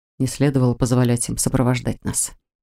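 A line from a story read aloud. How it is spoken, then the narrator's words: Quiet. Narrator (Russian): тихо произнес он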